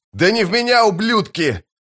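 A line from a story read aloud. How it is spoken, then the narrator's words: Yelling in foreign tongue. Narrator (Russian): заорал он по-малозански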